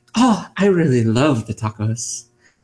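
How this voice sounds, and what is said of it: Put-on Irish accent. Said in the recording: “If I said it with an Irish accent”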